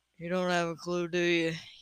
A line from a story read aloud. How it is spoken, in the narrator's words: He asked huskily